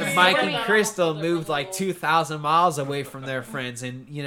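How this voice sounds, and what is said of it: Usual voice. Nothing is said of it.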